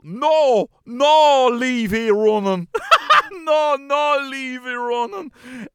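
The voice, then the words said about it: Put-on strong Donegal accent. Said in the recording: “gave us in a big Donegal”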